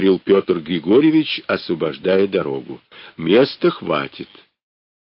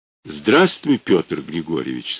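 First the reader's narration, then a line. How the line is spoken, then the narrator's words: Plain, mammoth speaker. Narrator (Russian): сказал мамонт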